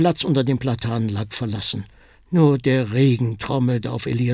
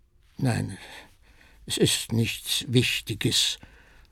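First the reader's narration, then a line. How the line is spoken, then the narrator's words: Troubled murmur. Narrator (German): murmelte Elias bekümmert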